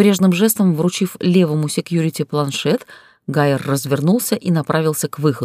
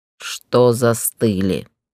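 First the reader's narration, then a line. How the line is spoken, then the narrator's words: Unnaturally calm question. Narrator (Russian): Неестественно спокойно поинтересовался Гроу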